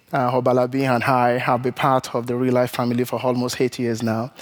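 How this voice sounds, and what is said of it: Nigerian English accent. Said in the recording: “he's got a little bit of an accent ... from Nigeria”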